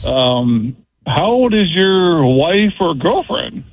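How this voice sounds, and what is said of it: Playful lilting tone. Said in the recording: “the tone of his voice was more disturbing than the question itself, too. That little playful lilt.”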